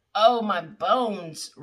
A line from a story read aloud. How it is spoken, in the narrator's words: Richards groaned